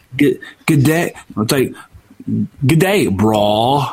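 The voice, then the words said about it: Weak attempt at Australian accent. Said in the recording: “we're just going to do a bland Australian accent ... I can't quite pull it off”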